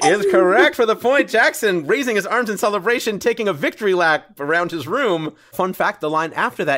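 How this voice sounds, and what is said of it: Usual voice. Nothing is said of it.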